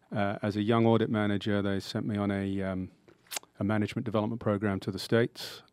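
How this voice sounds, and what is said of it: British accent. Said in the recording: “explaining my accent. I grew up in the UK”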